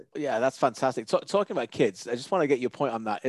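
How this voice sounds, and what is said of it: English accent, not Canadian. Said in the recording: “obviously I don't sound Canadian. I was born in England.”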